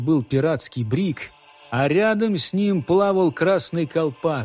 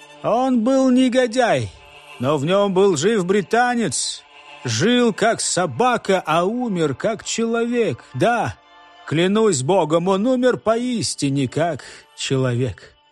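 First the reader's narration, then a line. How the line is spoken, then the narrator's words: Exclaiming, captain. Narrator (Russian): Капитан наконец, воскликнул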